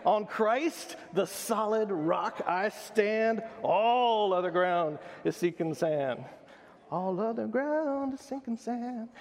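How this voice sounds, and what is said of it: Sung imitation of another person's voice. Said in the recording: “That was my Ivy impression. ... It was bad.”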